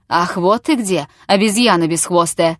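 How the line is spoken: Thundering. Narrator (Russian): прогремел Чертопханов

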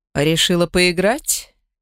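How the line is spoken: Low growl. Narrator (Russian): Вион негромко рыкнул

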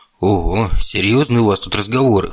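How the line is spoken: Smirking snort. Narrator (Russian): хмыкнул Ник

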